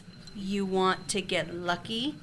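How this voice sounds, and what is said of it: Each word pronounced very precisely. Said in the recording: “Each word pronounced very precisely.”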